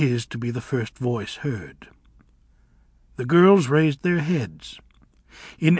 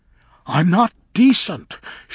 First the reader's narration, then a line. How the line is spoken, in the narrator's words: shrieked Chen Chen